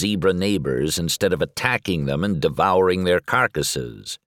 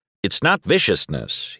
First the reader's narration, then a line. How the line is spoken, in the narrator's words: he corrects me, his voice suddenly stern